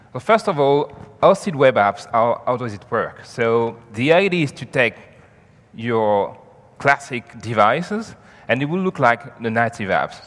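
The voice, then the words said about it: French accent. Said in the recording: “I am French. So I will have a French accent”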